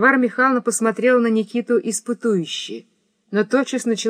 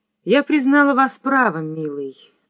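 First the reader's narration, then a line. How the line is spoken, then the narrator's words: Tender, affectionate. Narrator (Russian): проговорила она ласково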